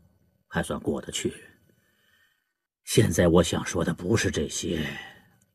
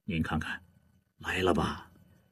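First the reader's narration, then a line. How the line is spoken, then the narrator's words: Quiet, warden. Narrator (Chinese): 典狱长低声地对巡视员说道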